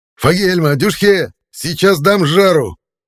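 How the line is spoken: Yell. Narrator (Russian): Заорал я

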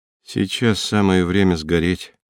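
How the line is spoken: Calm. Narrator (Russian): спокойно сказал он

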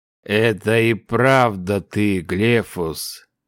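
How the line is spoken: Weak old man smiling. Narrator (Russian): улыбнулся старик, которому медленно возвращались силы

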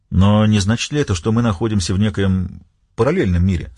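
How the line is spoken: Plain question. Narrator (Russian): спросил Уэллс

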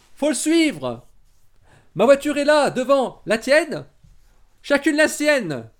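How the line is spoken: Shouted. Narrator (French): cria Christina

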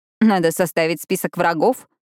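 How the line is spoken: Surprised snort. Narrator (Russian): Пиппа удивленно фыркнула

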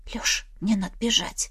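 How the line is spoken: Quiet. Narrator (Russian): Так же тихо произнесла я

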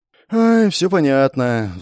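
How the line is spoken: Sighing. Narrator (Russian): вздохнула Беатрис

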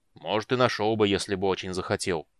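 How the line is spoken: Stubborn grumble. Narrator (Russian): упрямо проворчал Флинт

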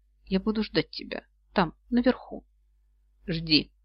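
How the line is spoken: Quiet. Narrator (Russian): Колин тихо сказал

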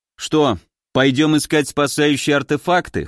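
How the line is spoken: Snort. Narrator (Russian): хмыкнул

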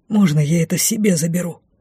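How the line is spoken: Awed whispered question. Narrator (Russian): Шепотом спросил Лей, с трепетом

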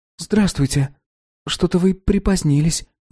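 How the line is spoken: Sighing. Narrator (Russian): вздохнула Лена

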